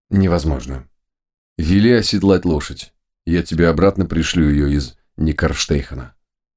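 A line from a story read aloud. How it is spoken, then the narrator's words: Very dry reply. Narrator (Russian): Самуил очень сухо ответил ему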